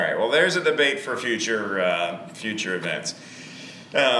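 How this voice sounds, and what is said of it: Usual voice. Nothing is said of it.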